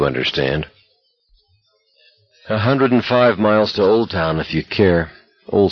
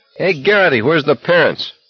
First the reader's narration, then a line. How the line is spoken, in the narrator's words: Someone yelled